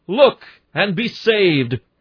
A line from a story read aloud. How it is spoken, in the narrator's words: a shout